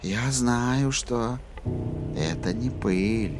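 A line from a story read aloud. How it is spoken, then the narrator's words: Whispering. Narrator (Russian): прошептала красотуля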